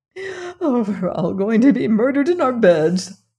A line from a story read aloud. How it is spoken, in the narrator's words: quavered